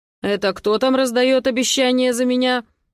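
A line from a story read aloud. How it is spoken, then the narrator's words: Stern voice from above. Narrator (Russian): доносится сверху строгим голосом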